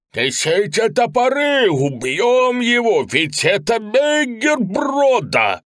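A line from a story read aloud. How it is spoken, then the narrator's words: Boatman shouting. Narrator (Russian): один лодочник закричал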